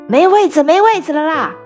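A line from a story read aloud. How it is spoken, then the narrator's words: Loud shouting. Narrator (Chinese): 大声嚷嚷着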